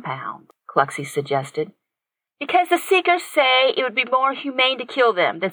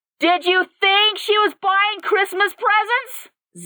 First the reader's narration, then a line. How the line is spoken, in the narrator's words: Zach yelled at them